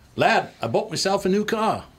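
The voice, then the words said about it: Imitated English accent. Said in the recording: “never lost his English accent”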